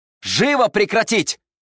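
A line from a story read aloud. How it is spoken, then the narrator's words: Shouted. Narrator (Russian): выкрикнул он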